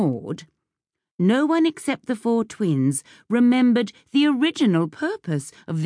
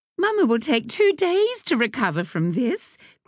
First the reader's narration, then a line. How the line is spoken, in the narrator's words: Grace said cheerfully